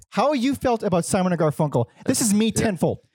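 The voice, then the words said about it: Yelling, loud voice. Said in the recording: “I keep peeking in my own ear because I'm yelling.”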